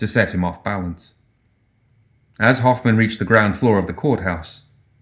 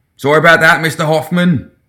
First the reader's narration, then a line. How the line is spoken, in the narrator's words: the captain shouted after him